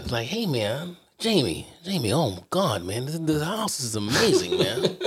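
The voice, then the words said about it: Imitates another person's voice. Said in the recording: “do a good impersonation of him”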